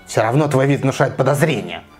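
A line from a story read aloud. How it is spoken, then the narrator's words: Spiteful devil's voice. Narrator (Russian): злобно сказал черт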